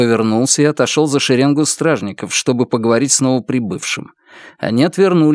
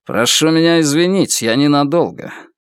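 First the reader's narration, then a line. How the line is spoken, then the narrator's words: Through clenched teeth. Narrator (Russian): Ардан процедил сквозь стиснутые зубы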